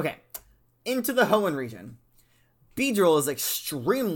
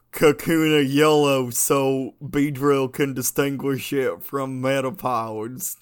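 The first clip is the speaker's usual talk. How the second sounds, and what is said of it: Imitates another person's accent. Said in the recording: “Did I get your accent right? I have a hard time doing your accent. ... it's so hard for me to do Southern Kanto region accents”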